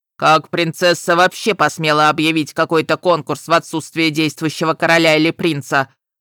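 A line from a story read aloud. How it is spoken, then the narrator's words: Growling. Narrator (Russian): прорычал Нитхёк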